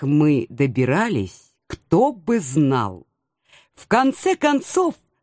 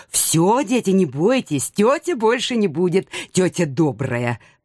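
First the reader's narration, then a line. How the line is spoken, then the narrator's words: Growled. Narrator (Russian): прорычала я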